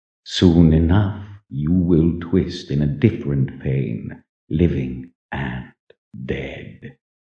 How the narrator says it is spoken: he whispered in a measured, merciless tone

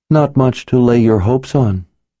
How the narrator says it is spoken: she said in a sympathetic tone

